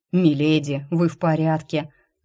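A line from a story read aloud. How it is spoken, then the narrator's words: Relieved exhale. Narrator (Russian): выдохнул Рыжик, увидев, что меня никто не сожрал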